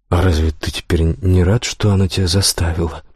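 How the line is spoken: Mutter. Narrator (Russian): пробормотал я

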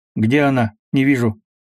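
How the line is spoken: Loud. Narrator (Russian): громко сказал Петр

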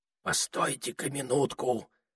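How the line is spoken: Whispered. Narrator (Russian): прошептал Этельред

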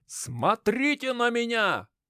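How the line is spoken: Loud, near shouting. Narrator (Russian): Громко, практически кричал я

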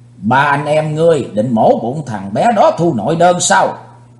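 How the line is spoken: Stern angry demand. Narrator (Vietnamese): Thiên Sơn Long Nữ quát mắt nói

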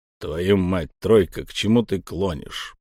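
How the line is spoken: Booming. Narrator (Russian): прогудел Торос

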